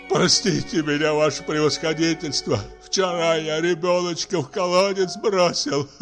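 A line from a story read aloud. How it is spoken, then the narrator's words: Sobbing. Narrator (Russian): зарыдал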